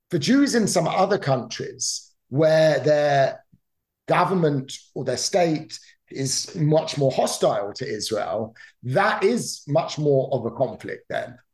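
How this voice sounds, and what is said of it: British English accent. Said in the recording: “I grew up in the United Kingdom, for example, as you could probably tell from my accent.”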